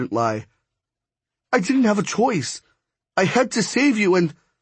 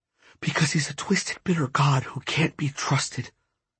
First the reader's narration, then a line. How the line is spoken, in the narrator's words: Brooks whispered